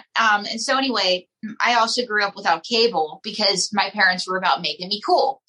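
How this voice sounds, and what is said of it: Pittsburgh accent. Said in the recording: “right outside of Pittsburgh. That's why I have the accent that I do”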